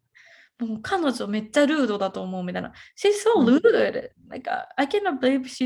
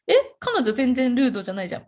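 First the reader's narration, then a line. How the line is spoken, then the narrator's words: Plain. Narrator (Japanese): みたいな風に言われたんですよ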